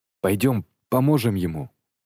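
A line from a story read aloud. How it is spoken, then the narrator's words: Hoarse voice. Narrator (Russian): хриплым голосом спросил я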